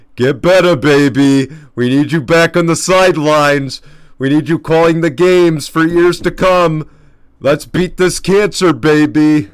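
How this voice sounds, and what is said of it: Imitates another person's voice. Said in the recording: “I'm going to try to do my best impression. So, Dick Vitale”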